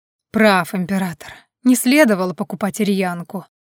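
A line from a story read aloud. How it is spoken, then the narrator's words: Gloomy. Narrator (Russian): мрачно продолжил Адриан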